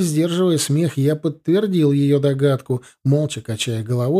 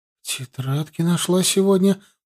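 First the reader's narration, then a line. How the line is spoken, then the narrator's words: Muttering. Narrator (Russian): пробормотала Света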